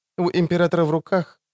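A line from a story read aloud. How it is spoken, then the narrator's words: Calm explanation. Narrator (Russian): спокойно пояснила Ассире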